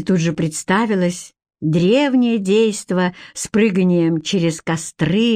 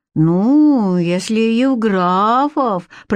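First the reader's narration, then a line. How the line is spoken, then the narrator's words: Mocking drawl. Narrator (Russian): протянула Катя с насмешкой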